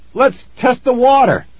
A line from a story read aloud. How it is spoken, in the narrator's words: Billy exclaimed